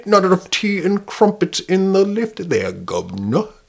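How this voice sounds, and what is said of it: Inconsistent put-on British accent. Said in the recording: “Your accent changes during the sentence.”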